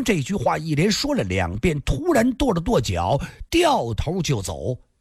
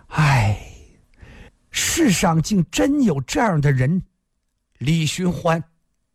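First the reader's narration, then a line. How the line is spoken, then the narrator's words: Long sigh after silence. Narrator (Chinese): 蓝蝎子又沉默了很久，才长长叹息一声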